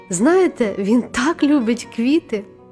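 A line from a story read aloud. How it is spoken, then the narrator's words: Female exclamation. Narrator (Ukrainian): вигукнула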